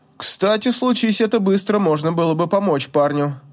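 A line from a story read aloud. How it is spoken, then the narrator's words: Snorting remark. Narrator (Russian): хмыкнул Зерег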